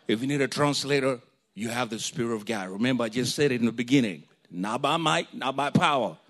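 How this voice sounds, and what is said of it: Heavy accent. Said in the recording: “if my accent is extra heavy”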